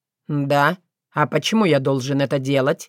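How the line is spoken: Cold question. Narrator (Russian): холодно осведомился Соколовский

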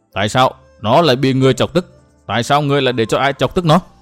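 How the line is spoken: Calm but harsh questioning. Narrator (Vietnamese): bà rất bình tĩnh hỏi Mai Nương lên hồi với một giọng gắt gao

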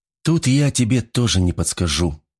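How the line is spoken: Sighing. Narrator (Russian): вздохнула Дарья

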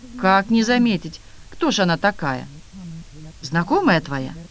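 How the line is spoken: Cheerful laughing. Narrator (Russian): Хозяйка снова весело засмеялась

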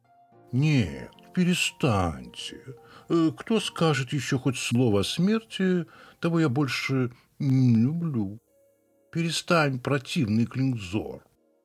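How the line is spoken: Kind, deep chest voice. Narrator (Russian): вмешавшись своим добрым грудным голосом

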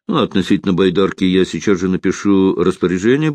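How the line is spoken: Said quickly. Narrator (Russian): быстро сказал

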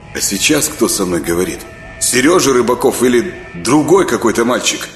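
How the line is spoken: Stern question. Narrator (Russian): строгим голосом спросил Саня

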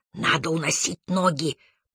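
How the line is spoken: Whisper. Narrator (Russian): прошептал он

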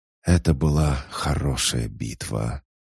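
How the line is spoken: Exhaled words. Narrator (Russian): Тан выдохнул

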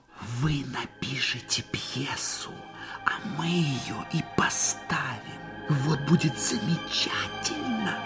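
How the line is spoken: Whispering. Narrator (Russian): шептал

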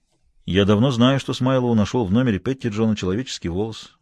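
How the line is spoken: Muttering. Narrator (Russian): буркнул Хэммонд

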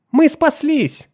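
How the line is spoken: Exclamation. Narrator (Russian): воскликнула Нарна

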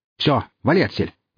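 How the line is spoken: Loud angry bark. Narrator (Russian): гаркнул наемник

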